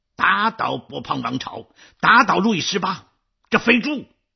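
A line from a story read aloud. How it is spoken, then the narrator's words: Trembling, fierce shout. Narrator (Chinese): 马吕斯浑身颤栗 狠狠的盯着外公喊道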